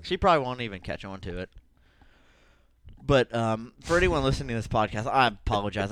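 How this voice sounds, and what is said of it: Heavy breathing, out of breath. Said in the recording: “I don't know why I'm breathing so heavy ... you are pretty out of breath ... Still trying to catch my breath.”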